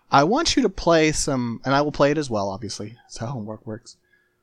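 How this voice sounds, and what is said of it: Voice sounds bad, unwell. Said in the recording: “I was in the hospital. It's fine. Anyway, that's why my voice sounds bad.”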